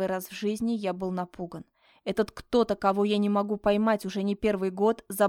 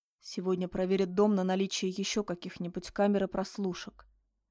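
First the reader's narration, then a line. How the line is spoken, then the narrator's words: Said quietly. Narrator (Russian): тихо проговорил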